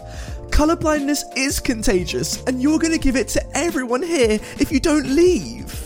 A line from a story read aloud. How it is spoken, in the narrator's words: the entitled mum yelled